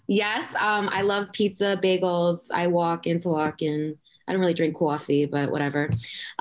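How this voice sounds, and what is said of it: Long Island accent. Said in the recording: “I am from Long Island, from Suffolk County... there's that accent.”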